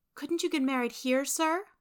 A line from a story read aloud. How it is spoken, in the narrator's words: asked Beth timidly